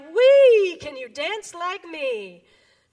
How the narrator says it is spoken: frog cried

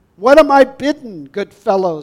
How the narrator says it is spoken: he cried

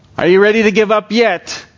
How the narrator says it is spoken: taunted the boy

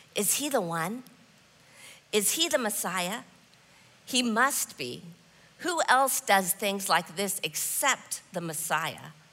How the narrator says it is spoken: the people had followed him, wondering, pointing, whispering

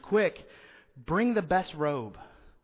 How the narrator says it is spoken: He shouts

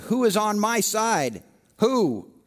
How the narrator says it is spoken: Jehu looked up at the window and called out

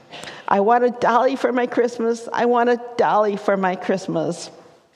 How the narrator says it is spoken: she was still sobbing

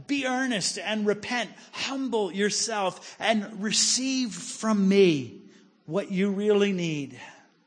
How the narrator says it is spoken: Jesus pleads with them

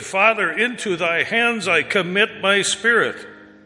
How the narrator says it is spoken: Jesus, crying in a loud voice, said

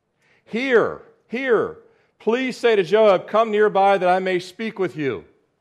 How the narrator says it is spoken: a wise woman cried out from the city

